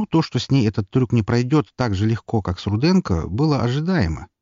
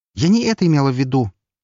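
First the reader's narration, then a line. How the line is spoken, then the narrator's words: Sharp. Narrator (Russian): резко сказала она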